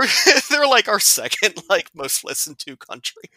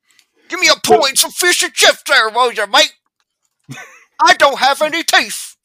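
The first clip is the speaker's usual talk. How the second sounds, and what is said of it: Mock exaggerated British accent. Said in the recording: “You're gonna piss all the UK listeners off again.”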